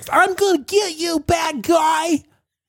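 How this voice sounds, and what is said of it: Childish baby voice. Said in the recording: “He's literally talking in baby voice”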